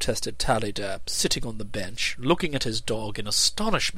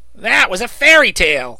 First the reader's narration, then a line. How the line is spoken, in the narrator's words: interrupted Ruffles impatiently